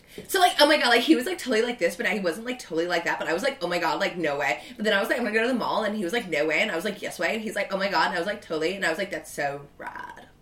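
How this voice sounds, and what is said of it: Put-on Valley Girl accent. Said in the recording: “Are you doing your Valley Girl voice? ... That was ... Valley Girl. ... That is my impression. Valley Girl impression”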